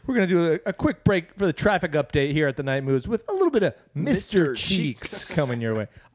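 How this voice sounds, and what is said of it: Radio DJ voice. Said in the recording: “I love radio DJ voice.”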